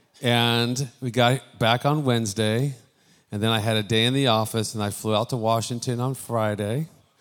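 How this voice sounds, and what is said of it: Tired-sounding voice. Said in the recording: “If I sound a little tired, it's because I am.”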